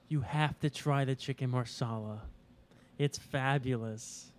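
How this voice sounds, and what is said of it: Imitates another person's voice. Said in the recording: “It's the guy who loves chicken marsala ... That lovely impression.”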